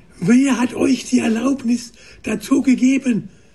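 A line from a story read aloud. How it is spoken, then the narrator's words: Bellowing from horseback. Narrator (German): brüllte Jos vom Pferd herunter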